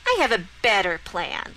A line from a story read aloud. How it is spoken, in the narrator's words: Lorelei said smugly